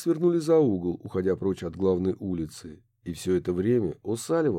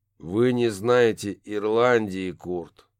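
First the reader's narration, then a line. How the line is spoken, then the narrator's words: Gloomy. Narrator (Russian): мрачно ответил Барри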